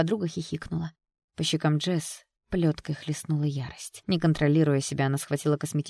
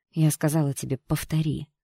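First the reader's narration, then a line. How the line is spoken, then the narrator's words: Through gritted teeth. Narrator (Russian): процедила Джесс сквозь зубы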